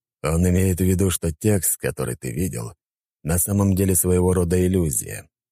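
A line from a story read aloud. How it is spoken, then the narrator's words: Plain. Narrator (Russian): сказал Дориан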